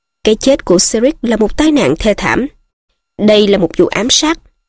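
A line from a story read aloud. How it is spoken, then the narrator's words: Cold. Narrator (Vietnamese): bà lạnh lùng nói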